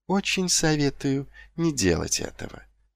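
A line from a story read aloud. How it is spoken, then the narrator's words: Soft. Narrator (Russian): мягко произнес лорд Витинари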